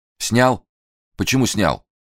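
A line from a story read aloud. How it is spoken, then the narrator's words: Wooden flat voice. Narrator (Russian): деревянным голосом спросил Фандорин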